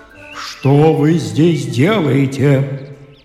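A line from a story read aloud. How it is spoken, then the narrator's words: Menacing shout. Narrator (Russian): крикнул грозным голосом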